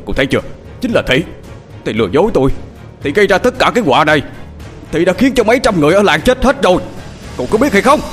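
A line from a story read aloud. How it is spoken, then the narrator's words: Shout. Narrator (Vietnamese): ông thập hét lên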